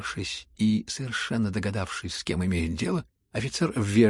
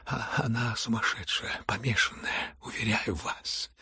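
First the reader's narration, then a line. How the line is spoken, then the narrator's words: Trembling voice. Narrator (Russian): отвечал князь дрожащим голосом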